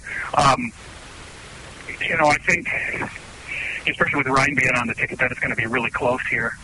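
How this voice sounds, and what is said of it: Wisconsin regional American accent. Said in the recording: “I'm in 715 is Wisconsin, and which I've been told you can tell from my accent.”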